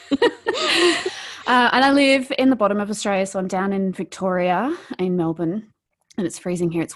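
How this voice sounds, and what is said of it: Australian accent. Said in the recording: “I'm from Australia, as people will hear from my accent.”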